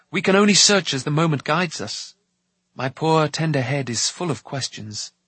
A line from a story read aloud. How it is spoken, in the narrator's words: he sighed, with a wry and regretful smile